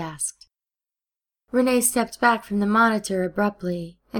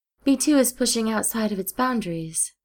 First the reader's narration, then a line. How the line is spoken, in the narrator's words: she replied